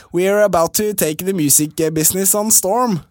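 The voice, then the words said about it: Imitates another person's voice. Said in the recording (Norwegian): “Hvis ikke så blir det som Petter Solberg, liksom”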